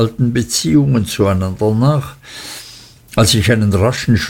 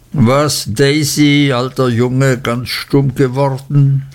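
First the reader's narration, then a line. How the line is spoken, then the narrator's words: Laughing, teasing. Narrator (German): lachte Steerforth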